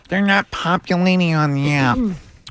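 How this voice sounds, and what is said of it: Nerdy IT tech voice. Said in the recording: “in an IT nerd voice”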